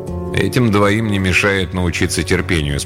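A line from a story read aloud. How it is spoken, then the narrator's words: Calm reply. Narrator (Russian): спокойно ответил Альвин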